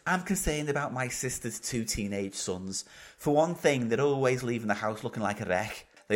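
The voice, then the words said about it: Put-on Scouse accent. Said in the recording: “It's a different accent ... It's a bit more Scouse, this one.”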